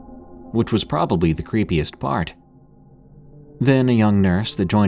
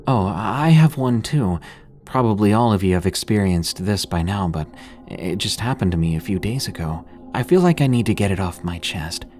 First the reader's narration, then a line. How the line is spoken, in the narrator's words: she said in a sheepish voice